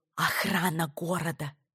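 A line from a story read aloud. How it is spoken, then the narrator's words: Cautious near whisper. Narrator (Russian): пояснила Сара почти шепотом, как будто стены могли слышать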